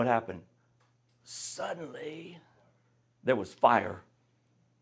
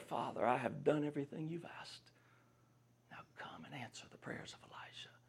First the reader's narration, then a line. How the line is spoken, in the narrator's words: he whispers a prayer